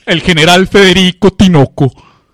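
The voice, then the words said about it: Imitates another person's voice. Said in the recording (Spanish): “imitación de... Como Osvaldo Valerín ... el Valerín le queda igualito”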